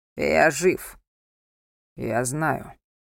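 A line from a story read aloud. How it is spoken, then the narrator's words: Calm, over phone. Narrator (Russian): спокойно произнес Александр в трубку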